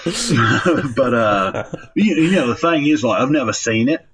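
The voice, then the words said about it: Bad put-on Australian accent. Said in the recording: “terrible Matt Bella Australian impression”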